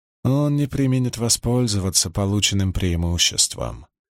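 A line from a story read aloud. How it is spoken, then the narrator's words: Gloomy remark. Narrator (Russian): мрачно обронила Суан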